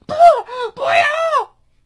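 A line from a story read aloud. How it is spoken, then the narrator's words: Sudden shout. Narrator (Chinese): 一直没有说话的吕婷突然大喊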